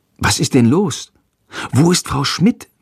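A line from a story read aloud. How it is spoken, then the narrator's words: Whispered. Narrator (German): flüstert Jendrik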